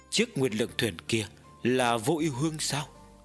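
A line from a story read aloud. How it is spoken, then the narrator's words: Gentle smiling. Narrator (Vietnamese): Trưởng thôn khẽ mỉm cười nói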